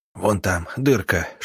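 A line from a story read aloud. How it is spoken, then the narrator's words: Whispered. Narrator (Russian): шепнул Родион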